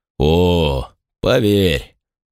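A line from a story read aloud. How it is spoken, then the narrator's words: Meaningful drawl. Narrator (Russian): многозначительно протянул человек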